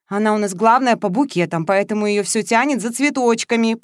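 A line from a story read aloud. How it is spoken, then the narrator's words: Explaining. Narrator (Russian): пояснила Зоя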